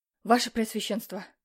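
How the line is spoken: Breathless exclamation. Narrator (Russian): выдохнул гонец

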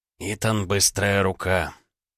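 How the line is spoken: Hoarse, tired chief. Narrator (Russian): Голос вождя был хриплым, усталым

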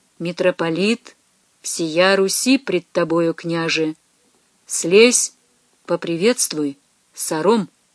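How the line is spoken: Quiet but firm. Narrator (Russian): Никита проговорил негромко, но твердо

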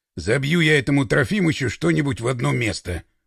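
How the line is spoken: Grumbled. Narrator (Russian): пробурчал Пашка

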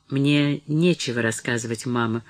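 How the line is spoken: Glum objection. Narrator (Russian): возразила Мэри уныло

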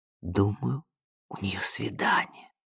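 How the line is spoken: Whispered. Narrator (Russian): прошептала

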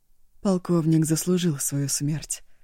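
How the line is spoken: Calm. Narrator (Russian): спокойно выговорил он

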